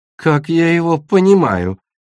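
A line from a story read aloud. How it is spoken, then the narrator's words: Giggling aside. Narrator (Russian): хихикнула Ореола в сторону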